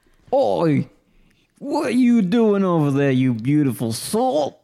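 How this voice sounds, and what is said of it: Put-on London accent. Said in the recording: “accent... I was transported for a moment there to the shores of London town.”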